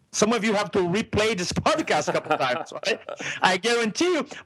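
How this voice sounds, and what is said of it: Thick foreign accent. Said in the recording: “I have a thick accent.”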